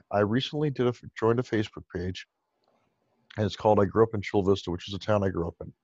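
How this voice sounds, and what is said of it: Hoarse, strained, fading voice. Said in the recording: “I'm losing my voice. This is, I've done so many calls today.”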